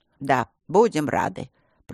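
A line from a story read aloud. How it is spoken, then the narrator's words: Creaky voice. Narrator (Russian): проскрипел глава семьи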